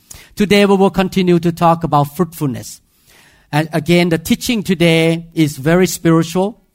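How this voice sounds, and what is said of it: Thai-accented English. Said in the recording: “I thank God that I have an accent ... Sometimes I speak wrong accent in Thai way ... if you don't understand my accent”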